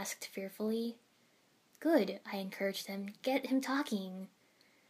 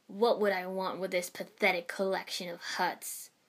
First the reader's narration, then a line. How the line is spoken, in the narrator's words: Suien scoffed